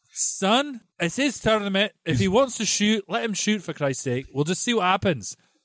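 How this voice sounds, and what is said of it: Imitates another person's voice, badly. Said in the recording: “your Stevie Coppel impression ... Is horrible, isn't it? ... It's pretty bad.”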